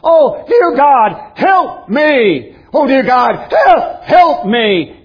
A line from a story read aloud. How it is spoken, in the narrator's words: was screaming